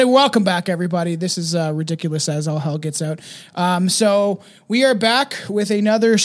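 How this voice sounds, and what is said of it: Usual voice. Nothing is said of it.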